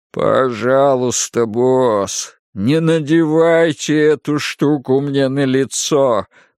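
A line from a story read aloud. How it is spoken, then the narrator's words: Groaning. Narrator (Russian): простонал он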